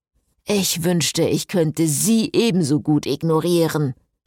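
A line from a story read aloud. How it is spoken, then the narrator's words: Hissed angrily. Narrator (German): fauchte Frederik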